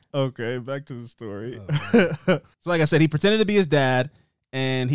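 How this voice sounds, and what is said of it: Usual voice. Nothing is said of it.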